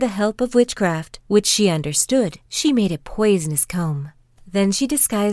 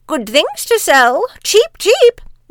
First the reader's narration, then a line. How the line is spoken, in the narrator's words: she cried